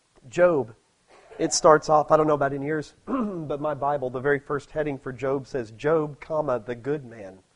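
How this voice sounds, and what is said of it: Hoarse voice from a cold. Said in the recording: “I'm getting over a cold and my voice is there, but not quite, so you have to excuse coughing.”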